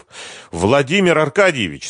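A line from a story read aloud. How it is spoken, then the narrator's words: Shouted again in Russian. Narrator (Russian): снова крикнул по-русски неизвестный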